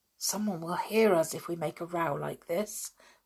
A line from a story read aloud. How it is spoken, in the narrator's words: whispered Julian